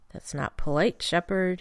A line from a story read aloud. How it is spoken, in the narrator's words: he murmured